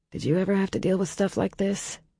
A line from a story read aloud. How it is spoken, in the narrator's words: she muttered up to them